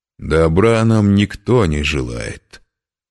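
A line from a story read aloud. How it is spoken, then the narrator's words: Spiteful reply. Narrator (Russian): отозвался Андрак, злобно покосившись на Белега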